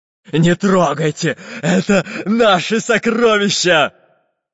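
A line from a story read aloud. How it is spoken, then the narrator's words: Menacing pirate shout. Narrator (Russian): Грозным голосом закричал пират Буль-Буль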